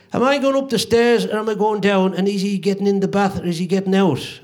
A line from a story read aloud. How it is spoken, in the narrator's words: Shouted down